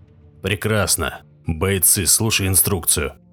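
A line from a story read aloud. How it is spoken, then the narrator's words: Hoarse, slightly tense. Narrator (Russian): прохрипел Корбит, слегка напряженным от только что возникшей ситуации голосом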